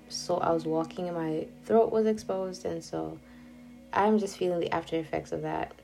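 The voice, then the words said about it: Unwell, slightly off-sounding voice. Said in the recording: “I am somehow under the weather again ... I'm sorry if my voice sounds a bit weird today”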